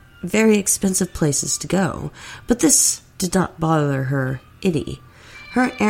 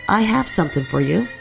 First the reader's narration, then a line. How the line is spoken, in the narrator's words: Jackie had said